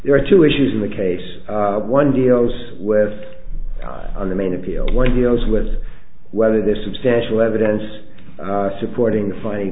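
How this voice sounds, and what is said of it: Hoarse, sick-sounding voice. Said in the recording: “I apologize for my voice. I've had a bad cold.”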